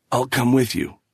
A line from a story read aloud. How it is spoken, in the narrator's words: croaked